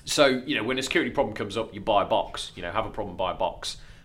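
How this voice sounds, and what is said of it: Lincolnshire regional English accent. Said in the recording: “your dodgy Lincolnshire accent ... It is my dodgy Lincolnshire accent”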